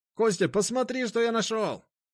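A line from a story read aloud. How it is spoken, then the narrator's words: Shouting. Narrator (Russian): прокричал он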